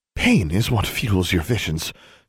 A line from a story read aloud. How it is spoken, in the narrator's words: she gasped